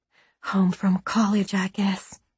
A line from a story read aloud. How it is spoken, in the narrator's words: she whispered